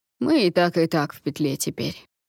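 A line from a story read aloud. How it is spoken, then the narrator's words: Grumble. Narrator (Russian): проворчал второй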